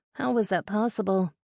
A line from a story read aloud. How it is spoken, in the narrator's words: I sighed